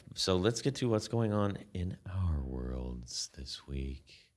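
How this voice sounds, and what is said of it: Smooth radio announcer voice. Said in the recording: “That's my radio voice. ... It's very smooth.”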